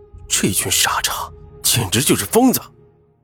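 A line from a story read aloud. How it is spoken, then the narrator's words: Low muttered cursing. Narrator (Chinese): 云峰低声咒骂道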